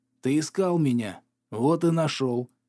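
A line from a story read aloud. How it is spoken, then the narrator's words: Satisfied hoarse voice. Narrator (Russian): прохрипел с довольной улыбкой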